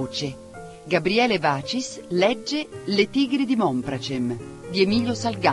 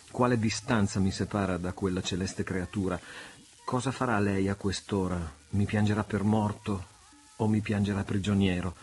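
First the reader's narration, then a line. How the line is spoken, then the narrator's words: Murmured. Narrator (Italian): mormorò egli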